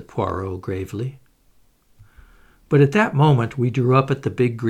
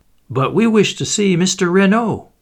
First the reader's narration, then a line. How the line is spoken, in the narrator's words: cried